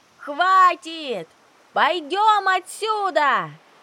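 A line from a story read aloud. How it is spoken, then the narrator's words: Frightened shout. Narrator (Russian): крикнула сзади Еринка … в ее голосе неподдельный страх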